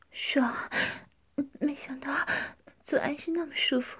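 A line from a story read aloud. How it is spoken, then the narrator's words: Panting heavily. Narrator (Chinese): 江环喘着粗气说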